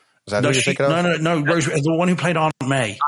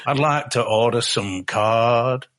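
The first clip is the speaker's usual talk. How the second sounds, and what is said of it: Put-on Georgian Southern accent. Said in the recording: “Everyone's doing their best Georgian accent, you know, and that's not mine. ... you got a better one.”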